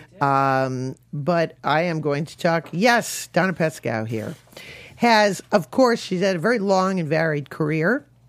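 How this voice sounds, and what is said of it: Hoarse, froggy voice. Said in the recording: “pardon my voice, I have a little bit of a frog in my throat”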